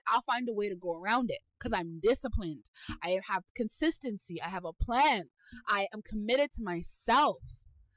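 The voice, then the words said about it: Loud, passionate, near-yelling delivery. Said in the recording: “I'm sorry if I'm yelling. I'm so passionate about this”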